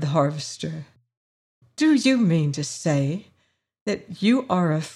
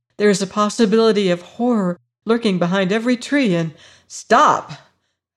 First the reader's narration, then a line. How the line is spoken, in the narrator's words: cried the harvester